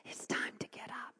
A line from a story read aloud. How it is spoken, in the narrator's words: He likes to whisper to me